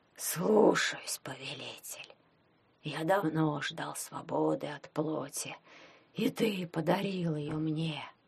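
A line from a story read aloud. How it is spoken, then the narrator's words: Hoarse voice. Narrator (Russian): сказал он сипло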